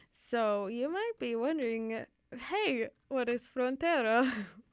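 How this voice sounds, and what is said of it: Put-on Italian accent. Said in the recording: “saying this in an Italian accent?”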